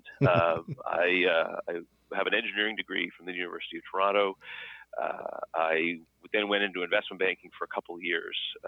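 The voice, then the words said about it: Canadian accent. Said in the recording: “I grew up in Canada. If anyone's trying to figure out the funny accent”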